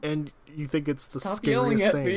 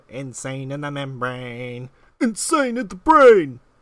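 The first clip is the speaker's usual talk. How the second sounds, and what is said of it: Yelled, menacing imitation of a rapper. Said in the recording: “impersonate Cypress Hill ... Stop yelling at me ... It's scary when you do it”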